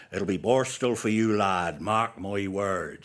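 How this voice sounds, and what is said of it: Strong Devon accent. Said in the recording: “in a strong Devon accent.”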